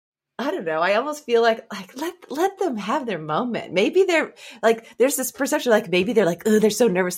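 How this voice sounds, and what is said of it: French accent. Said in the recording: “keep talking in that awesome French accent... This is some really great ASMR for me”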